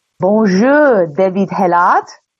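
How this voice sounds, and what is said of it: Put-on French accent. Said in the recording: “doing a French accent”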